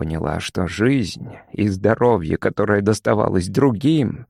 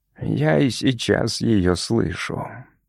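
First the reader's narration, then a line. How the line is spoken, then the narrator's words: Wry joyless smirk. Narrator (Russian): с невеселой усмешкой сказала Горги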